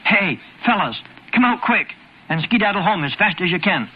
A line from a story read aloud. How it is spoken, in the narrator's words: Henry whispered